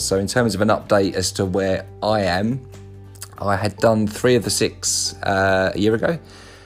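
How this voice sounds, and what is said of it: Welsh accent. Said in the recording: “the quality of my Welsh accent”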